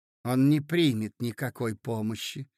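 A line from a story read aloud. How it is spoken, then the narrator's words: Quiet, muttered to herself. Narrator (Russian): проговорила Зина тихо, как бы про себя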